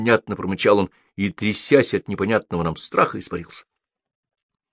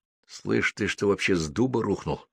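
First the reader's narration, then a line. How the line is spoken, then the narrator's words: Hissing. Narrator (Russian): дошипел он на него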